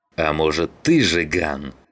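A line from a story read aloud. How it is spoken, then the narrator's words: Growled. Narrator (Russian): зарычал Саныч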